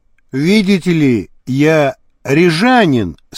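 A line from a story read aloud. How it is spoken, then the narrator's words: Plain. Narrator (Russian): сказал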